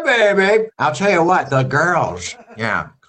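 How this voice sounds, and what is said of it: Impression of Caitlyn Jenner. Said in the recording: “your impression of her ... I don't hear Caitlyn Jenner speak anymore. Whenever on TV, I'm always like, I hear yours.”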